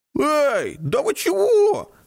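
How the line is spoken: Carefree exclamation. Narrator (Russian): легкомысленно воскликнул Ник

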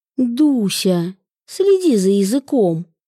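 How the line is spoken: Resigned sigh. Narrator (Russian): обреченно вздохнула мама

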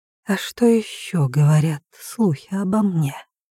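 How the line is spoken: Whispered. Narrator (Russian): прошептала я

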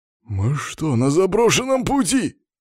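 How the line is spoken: Exclaimed. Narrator (Russian): воскликнул машинист

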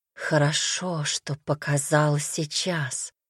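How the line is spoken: Rapturous whisper. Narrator (Russian): восторженно прошептала

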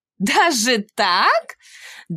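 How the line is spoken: Laughing woman. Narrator (Russian): Дама засмеялась

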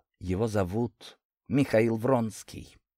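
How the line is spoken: Quiet. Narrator (Russian): тихо подала голос Анастасия

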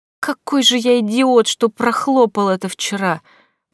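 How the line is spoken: Groaning. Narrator (Russian): простонал он

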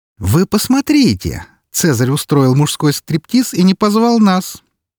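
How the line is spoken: Mock-indignant exclamation. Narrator (Russian): С притворным возмущением воскликнула Валькирия

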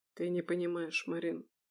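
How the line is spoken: Quiet, bitter. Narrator (Russian): тихо сказал он, и в его голосе прозвучала горечь

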